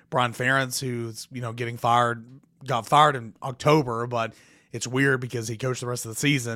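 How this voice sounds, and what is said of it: Cracking, strained voice. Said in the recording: “as you can see that, though, my voice is cracking.”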